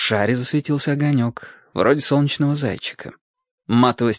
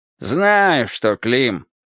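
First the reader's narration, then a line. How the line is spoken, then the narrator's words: Grumbling. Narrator (Russian): проворчал Футурум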